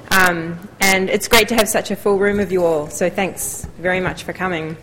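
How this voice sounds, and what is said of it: New Zealand accent. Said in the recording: “I am a New Zealander. I don't know how strong my accent still is.”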